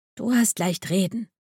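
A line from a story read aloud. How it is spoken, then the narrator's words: Sighing murmur. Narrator (German): murmelte Coralie seufzend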